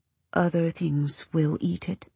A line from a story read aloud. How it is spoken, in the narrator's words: he says to you very softly